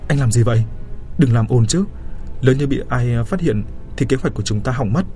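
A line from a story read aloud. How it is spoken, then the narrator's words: Hurried, frightened reproach. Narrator (Vietnamese): Triệu Vân Vân vội vàng sợ hãi quay lại trách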